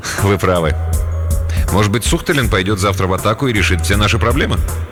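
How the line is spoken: Laughing. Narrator (Russian): Полковник рассмеялся

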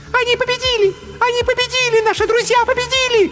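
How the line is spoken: Joyful shouting. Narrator (Russian): радостно кричала Незабудка

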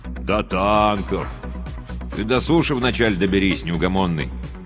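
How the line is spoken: Gloomy grumble. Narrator (Russian): мрачно проворчал радист-пулеметчик Курсилов

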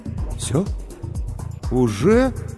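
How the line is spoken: Bewildered drawl. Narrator (Russian): растерянно протянул Сергей

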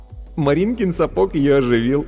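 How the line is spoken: Giggling. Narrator (Russian): хихикнув, сказал Вовка

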